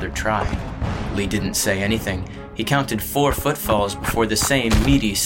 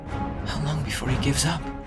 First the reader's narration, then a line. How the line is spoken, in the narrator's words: Vanna murmured in Lee's ear